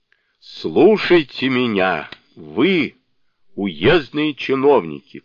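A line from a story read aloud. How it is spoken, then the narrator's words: Thunderous shout. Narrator (Russian): крикнул он громовым голосом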